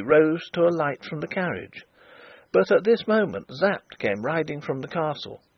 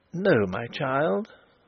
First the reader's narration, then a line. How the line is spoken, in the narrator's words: said Flavia softly